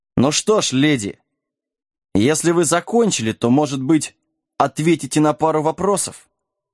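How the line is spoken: Mocking. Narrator (Russian): Насмешливо бросил Джек

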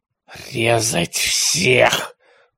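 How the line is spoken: Hoarse rasp. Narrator (Russian): прохрипел араб

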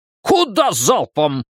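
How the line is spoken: Barked shout. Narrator (Russian): гаркнул Фриц

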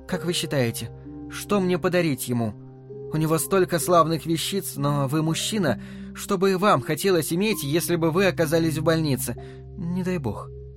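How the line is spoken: Warm, smiling. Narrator (Russian): добавила она, ласково улыбнувшись

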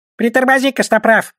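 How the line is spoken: Squeak. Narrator (Russian): пискнул он

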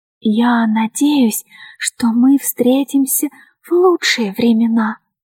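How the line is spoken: Whispering woman. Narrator (Russian): прошептала дама Синдика

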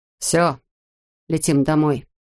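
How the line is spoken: Muttered. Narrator (Russian): пробормотал он

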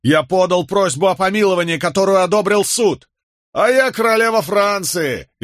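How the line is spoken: Mocking shout. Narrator (Russian): издевательски крикнул какой-то остряк

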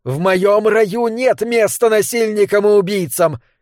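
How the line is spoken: Furious shouting. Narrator (Russian): кричала она в ярости

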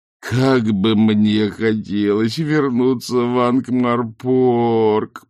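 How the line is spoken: Groaning. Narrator (Russian): простонал Ринсвинд

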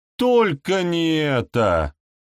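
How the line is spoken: Shouted. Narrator (Russian): крикнула Голодранка

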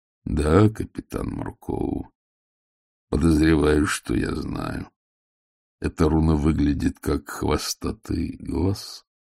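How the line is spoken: Deep bass voice. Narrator (Russian): голос, идущий от дверей, пробасил

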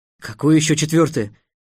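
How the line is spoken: Exclamation. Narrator (Russian): воскликнул Трикс

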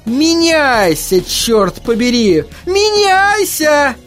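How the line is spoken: Yelling. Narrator (Russian): вопила мисс Сидли

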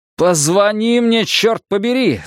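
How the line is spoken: Shouted. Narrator (Russian): закричал я наконец

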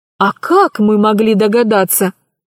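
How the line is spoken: Sighing father. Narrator (Russian): вздохнул отец

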